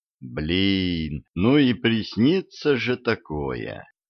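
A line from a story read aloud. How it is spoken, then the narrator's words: Sighed. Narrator (Russian): вздохнул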